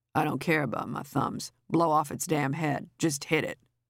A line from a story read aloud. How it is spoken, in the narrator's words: he murmured